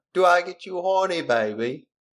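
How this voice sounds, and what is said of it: Austin Powers-style British accent impression. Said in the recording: “we should be reading them with like an Austin Powers accent ... Could you do that for me, babe?”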